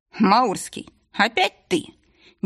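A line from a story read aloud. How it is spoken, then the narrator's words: Snorting necromancer. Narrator (Russian): Некромант хмыкнул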